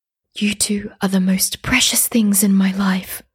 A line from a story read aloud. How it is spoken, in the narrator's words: whispered my mother